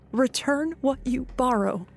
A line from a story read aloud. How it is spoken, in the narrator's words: say, but my voice shakes